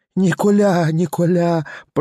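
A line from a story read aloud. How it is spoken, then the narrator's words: Moaning victim. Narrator (Russian): простонала опять жертва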